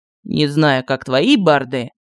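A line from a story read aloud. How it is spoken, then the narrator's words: Mocking. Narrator (Russian): насмешливо сказал Мар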